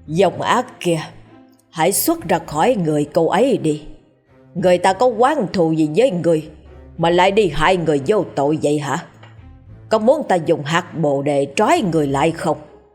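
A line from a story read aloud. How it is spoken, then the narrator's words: Stern. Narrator (Vietnamese): thầy nghiêm giọng nói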